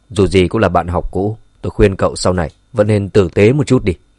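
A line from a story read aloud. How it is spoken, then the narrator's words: Cold. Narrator (Vietnamese): Dương Chấn chỉ lạnh lùng nói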